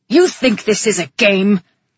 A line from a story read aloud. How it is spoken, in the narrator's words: He snarled